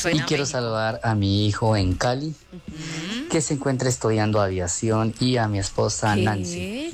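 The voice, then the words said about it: Slight accent, possibly Mexican. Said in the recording (Spanish): “Tiene acento. ... Cierto, un poquito. ... Me late México”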